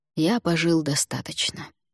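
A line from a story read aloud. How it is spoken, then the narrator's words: Soft. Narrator (Russian): мягко произнес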